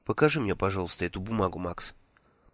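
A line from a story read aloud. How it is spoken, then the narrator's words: Asked. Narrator (Russian): попросила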